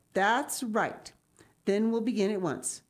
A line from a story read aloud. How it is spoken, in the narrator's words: she said cheerfully